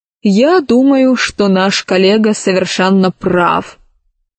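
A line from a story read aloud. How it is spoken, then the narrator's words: Plain. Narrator (Russian): ответил Селезнев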